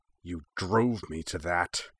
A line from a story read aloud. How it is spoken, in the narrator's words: hissed